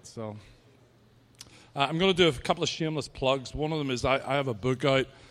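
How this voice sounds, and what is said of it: Irish accent. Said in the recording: “my accent is the best. You know that the Irish accent was voted as the sexiest accent on the planet”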